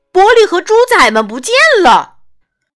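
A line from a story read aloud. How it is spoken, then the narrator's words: Shouting. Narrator (Chinese): 他大叫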